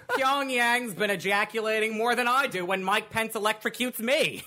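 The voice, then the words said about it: Sounds like a Jewish aunt. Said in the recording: “Why do you sound like my Jewish aunt?”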